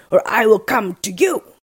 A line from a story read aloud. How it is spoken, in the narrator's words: cried Blue-Green